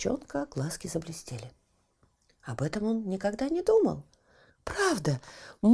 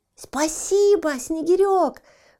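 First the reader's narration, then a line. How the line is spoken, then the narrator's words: Young creature shouting. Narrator (Russian): выкрикнул зачонок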